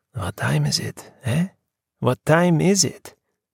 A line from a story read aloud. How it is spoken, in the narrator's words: Uncle Moritz would … whisper